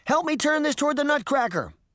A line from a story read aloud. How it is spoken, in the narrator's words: Sabrina shouted to her sister